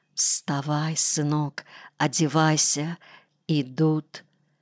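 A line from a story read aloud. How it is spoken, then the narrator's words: Mother's whisper. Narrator (Russian): мама и сказала почему-то шепотом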